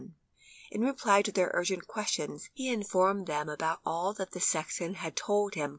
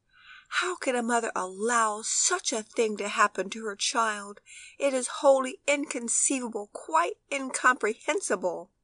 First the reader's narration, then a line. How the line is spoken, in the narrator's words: the lady from Geneva, who took an unusual interest in poor Tony's fate, exclaimed in great excitement